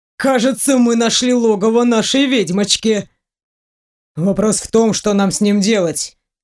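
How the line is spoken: Gloomy remark. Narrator (Russian): мрачно заметил Дементьев

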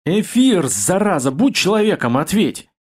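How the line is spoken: Tired monotone muttering. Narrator (Russian): устал бубнить

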